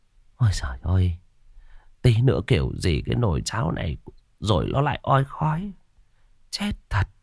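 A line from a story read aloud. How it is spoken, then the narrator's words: Tearful muttering. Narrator (Vietnamese): Bà đưa tay lau nước mắt lẩm bẩm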